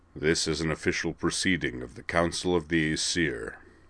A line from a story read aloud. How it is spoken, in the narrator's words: he intoned in his business voice